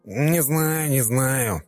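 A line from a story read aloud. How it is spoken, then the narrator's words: Nasal droning whine. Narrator (Russian): прогнусавил нудный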